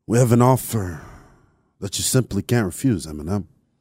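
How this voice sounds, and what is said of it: Poor impression of a character's voice. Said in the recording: “my Tony Montana impersonation ... That was awful ... I don't even know who you were trying to.”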